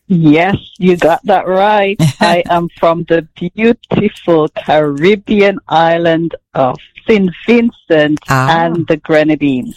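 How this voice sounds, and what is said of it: Caribbean accent. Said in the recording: “you have a beautiful Caribbean accent”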